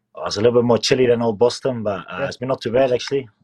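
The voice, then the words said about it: Slight New Zealand accent, Dutch speaker. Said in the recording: “a little bit of New Zealand accent in your voice ... I'm originally from the Netherlands. So Dutch is my first language.”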